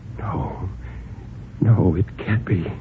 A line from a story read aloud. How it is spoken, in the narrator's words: After a long time, Bill whispered